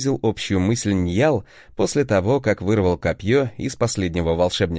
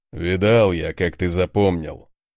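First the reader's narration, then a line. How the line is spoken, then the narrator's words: Deep bass voice. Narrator (Russian): пробасил Конунг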